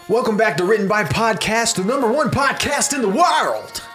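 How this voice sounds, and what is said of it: Radio DJ voice impression. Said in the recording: “I don't know who we're doing an impression of. ... It changed halfway through. I started okay. ... a radio DJ?”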